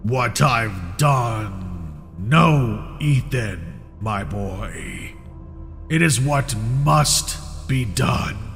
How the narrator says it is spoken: Uncle Samuel said in that deep, guttural tone

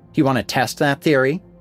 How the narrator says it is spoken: Alana snapped

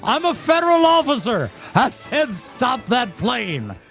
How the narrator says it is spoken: yells

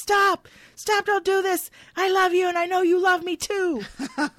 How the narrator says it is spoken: a loud voice yelling

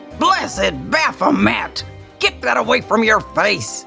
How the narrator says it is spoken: he thunders

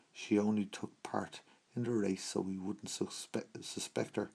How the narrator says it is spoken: sneered Storm

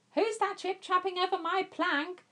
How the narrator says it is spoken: jeered Hang Chief

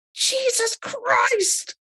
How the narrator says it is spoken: exclaimed Thomas Clayson

